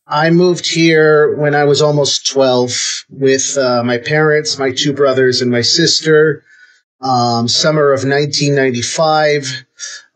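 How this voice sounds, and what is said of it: American accent. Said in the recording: “you have an American accent.”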